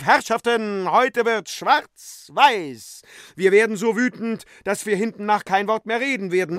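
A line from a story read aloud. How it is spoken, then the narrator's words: Calling out. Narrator (German): Euphemia rief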